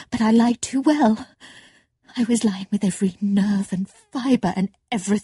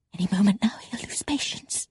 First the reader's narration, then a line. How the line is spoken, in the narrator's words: she whispered